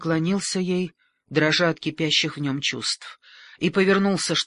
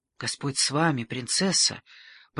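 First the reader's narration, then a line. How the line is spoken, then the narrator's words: Mutter. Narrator (Russian): пробормотал Дон Фуансалида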